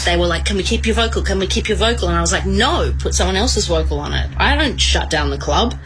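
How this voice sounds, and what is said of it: Female voice with Australian accent. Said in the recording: “Australian accent, female”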